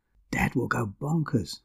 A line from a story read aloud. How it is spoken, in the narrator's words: I whispered to Sabine